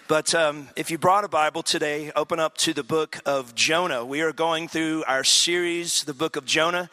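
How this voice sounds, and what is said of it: Strained, nearly lost voice. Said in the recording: “I'm about this close from losing my voice, so if my voice cracks or I cough a little bit”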